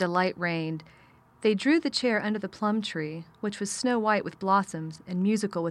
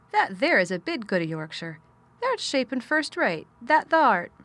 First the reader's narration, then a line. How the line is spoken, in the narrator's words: cried Mary admiringly